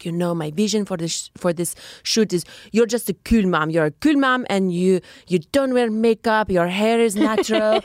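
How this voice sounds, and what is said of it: Put-on Norwegian accent. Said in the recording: “she was, I think, from Norway ... Really good accent.”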